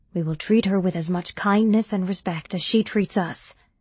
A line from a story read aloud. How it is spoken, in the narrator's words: said Roshak